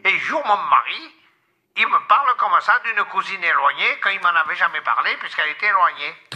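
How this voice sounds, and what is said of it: Strong southern Carpentras accent. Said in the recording (French): “vous avez vraiment l'accent de Carpentras ... du sud de Carpentras ... bien du sud”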